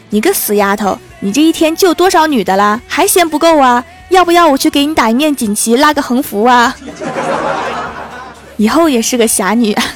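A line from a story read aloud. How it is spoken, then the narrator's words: Angry yelling. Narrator (Chinese): 小孩他爸 一边吼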